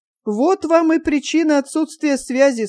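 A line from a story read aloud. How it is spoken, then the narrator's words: Agitated exclamation. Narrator (Russian): с волнением воскликнул полковник Карпухин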